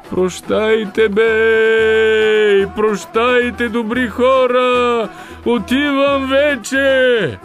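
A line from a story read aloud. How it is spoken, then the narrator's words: Roaring. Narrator (Bulgarian): Изрева гърлото на Кир Михалаки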